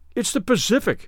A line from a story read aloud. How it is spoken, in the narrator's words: they cried at last